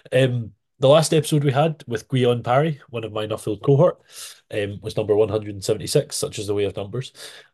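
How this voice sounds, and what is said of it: Softer voice, Scottish accent, sounds congested. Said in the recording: “I have somewhat of a cold ... it gives me a wee bit of a softer voice than the strong Scottish accent that I have normally”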